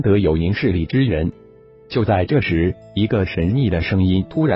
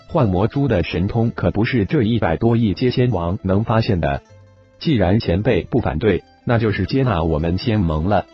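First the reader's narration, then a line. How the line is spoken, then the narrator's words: Calm, smiling. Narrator (Chinese): 魔圣淡淡一笑，道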